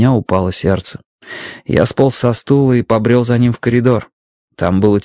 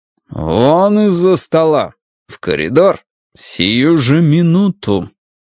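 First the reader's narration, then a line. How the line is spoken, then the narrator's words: Through gritted teeth. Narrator (Russian): процедил он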